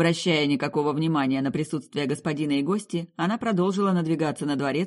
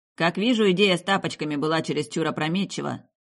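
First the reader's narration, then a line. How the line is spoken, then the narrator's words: Grumbling. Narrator (Russian): проворчал Виндоухарт-младший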